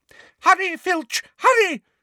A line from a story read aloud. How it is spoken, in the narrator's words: shrieked Umbridge